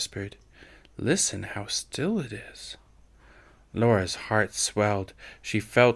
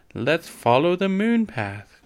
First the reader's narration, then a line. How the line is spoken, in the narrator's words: cried Laura